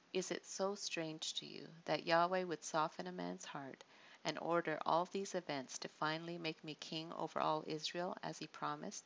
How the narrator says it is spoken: he said gently

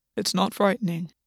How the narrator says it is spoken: Gwen said calmly

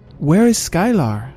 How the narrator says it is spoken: asked loudly

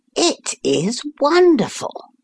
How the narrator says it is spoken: I exclaimed

